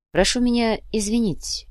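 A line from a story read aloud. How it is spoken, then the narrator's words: Quiet. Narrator (Russian): негромко произнес Сантьяго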